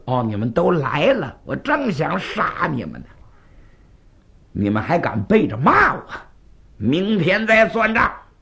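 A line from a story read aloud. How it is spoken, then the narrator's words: King, furious. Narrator (Chinese): 纣王闻听重重大怒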